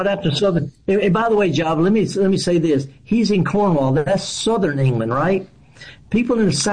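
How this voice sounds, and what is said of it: Usual voice. Nothing is said of it.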